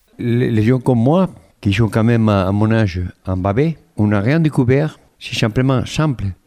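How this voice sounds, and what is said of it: Slight accent. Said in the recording (French): “Il l'explique avec un léger accent, vous allez voir, ou plutôt vous allez entendre.”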